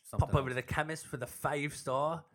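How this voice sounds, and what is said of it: Badly done put-on accent. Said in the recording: “It's a horrible accent.”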